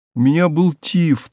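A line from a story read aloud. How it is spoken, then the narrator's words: Thin, hurt little voice. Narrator (Russian): тоненьким от обиды голоском сказала и так глубоко вздохнула, что в горле у нее пискнуло, как у птички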